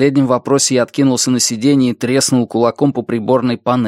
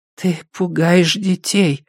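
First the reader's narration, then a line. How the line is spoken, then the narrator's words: Mother's whisper in ear. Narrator (Russian): прошептала мама в ухо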